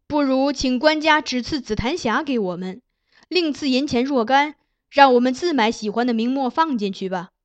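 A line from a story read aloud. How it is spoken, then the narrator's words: Joking. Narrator (Chinese): 还有人曾玩笑说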